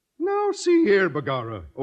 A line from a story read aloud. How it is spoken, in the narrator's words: O'Houlihan exclaimed with a merry twinkle in his Irish eye